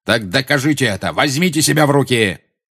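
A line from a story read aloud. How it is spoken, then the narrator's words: Harsh bark. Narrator (Russian): рявкнул Снег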